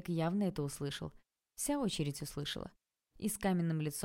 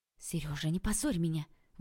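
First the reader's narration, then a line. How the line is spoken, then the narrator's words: Exhaled words, wife. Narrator (Russian): выдохнула его жена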